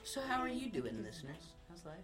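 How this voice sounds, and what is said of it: Sultry radio host voice. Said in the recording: “sultry voice. He's got radio voice. ... Hey, radio man.”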